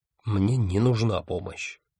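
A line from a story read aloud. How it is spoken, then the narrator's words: Grumbled. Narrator (Russian): буркнул Арес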